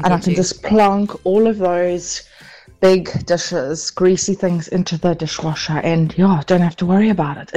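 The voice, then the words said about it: South African KwaZulu-Natal accent. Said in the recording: “love the way you say braai. Such a Durbanite with KZN accent.”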